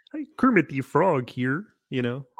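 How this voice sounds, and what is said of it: Kermit the Frog impression. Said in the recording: “Probably Kermit the Frog ... Oh, that's very good. Very good.”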